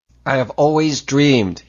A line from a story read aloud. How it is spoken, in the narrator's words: he mouthed fiercely